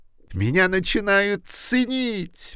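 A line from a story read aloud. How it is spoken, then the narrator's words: Exclamation. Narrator (Russian): воскликнул он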